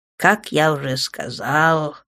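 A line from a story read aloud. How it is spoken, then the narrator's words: Stranger sighing. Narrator (Russian): вздохнул незнакомец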